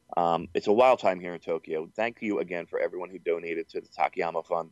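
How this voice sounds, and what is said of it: Hoarse, fading voice. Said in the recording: “I'm still hungover. I'm losing my voice.”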